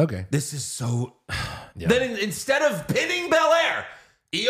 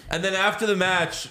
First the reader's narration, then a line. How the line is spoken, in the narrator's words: Corey Graves yelled